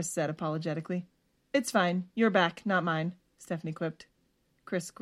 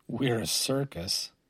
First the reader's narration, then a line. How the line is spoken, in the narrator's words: Chris muttered under his breath